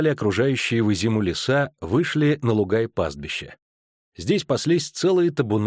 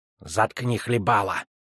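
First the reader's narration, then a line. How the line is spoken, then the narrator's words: Hissed. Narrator (Russian): прошипел Щук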